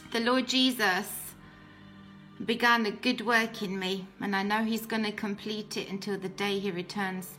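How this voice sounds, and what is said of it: British accent. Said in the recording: “As you can tell, obviously, by my accent, I'm British.”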